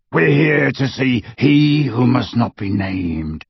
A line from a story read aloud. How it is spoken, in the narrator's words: rasped Greyback